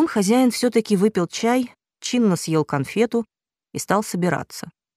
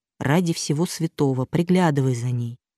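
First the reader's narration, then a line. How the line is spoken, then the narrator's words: Quiet. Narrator (Russian): тихо сказал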